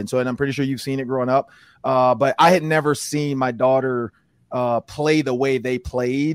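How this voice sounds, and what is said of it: Raspy, hoarse voice. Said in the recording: “lost my voice. Usually doesn't sound this raspy”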